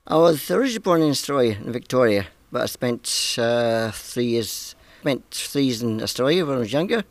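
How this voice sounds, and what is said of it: Speaks with a noticeable accent. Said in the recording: “I detected the accent”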